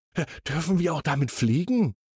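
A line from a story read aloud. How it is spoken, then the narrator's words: Very excited question. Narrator (German): fragt er noch ganz aufgeregt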